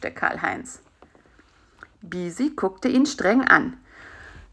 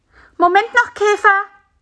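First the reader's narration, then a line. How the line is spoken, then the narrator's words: Calling out. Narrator (German): rief Bisi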